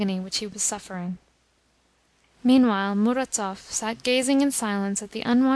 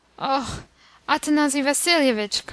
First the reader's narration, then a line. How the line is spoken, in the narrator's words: cried poor Chichikov